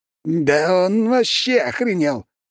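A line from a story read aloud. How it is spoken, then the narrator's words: Furious shout. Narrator (Russian): закричал в ярости герцог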